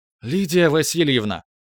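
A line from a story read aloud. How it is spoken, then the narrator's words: Exclaiming. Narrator (Russian): воскликнула Рита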